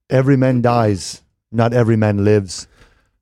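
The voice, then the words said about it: Put-on movie accent, done well. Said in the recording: “The accent gave it. The accent gave it away. You did so good.”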